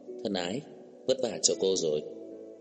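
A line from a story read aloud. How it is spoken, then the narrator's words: Smiling soft call. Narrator (Vietnamese): Trang Hạo Nhiên mỉm cười gọi nhỏ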